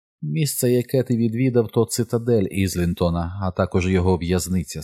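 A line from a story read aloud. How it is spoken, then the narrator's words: Plain. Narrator (Ukrainian): сказала вона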